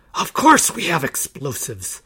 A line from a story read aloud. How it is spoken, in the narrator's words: the leader hissed